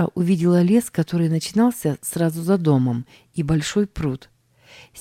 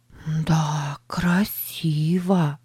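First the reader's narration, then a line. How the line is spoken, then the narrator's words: Whispered. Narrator (Russian): прошептала она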